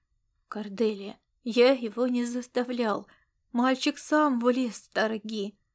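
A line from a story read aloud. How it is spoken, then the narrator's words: Weary father speaking. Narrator (Russian): устало проговорил отец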